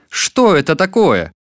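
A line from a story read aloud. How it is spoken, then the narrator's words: Shouted. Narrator (Russian): Закричал царь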